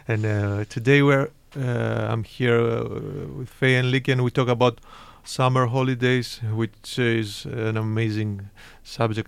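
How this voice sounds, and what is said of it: Non-local foreign accent in English. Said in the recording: “we are not from Gothenburg, as you can guess from our accent.”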